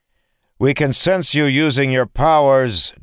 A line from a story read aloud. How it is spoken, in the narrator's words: Dalen called out to them